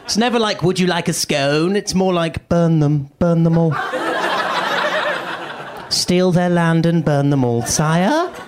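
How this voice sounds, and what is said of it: British accent. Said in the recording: “I'm from the UK. This is my accent.”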